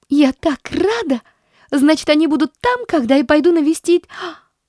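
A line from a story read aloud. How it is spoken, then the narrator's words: Desperate girl's cry. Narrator (Russian): Вскрикнула девочка с отчаянием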